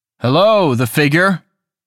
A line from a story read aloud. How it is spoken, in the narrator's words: he called out